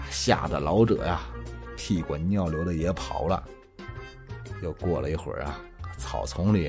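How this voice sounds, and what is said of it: Usual voice. Nothing is said of it.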